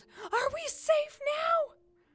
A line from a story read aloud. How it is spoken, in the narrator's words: Something big, hairy and white, yelled